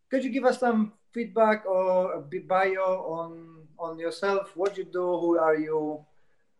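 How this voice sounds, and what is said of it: Polish-accented English. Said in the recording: “You've got a Polish accent”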